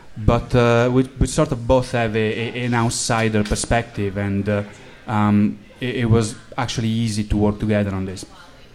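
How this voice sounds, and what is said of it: Italian accent. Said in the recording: “I'm from Italy, as you can probably tell from my accent”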